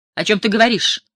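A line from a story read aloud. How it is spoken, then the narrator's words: Said sharply. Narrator (Russian): резко сказала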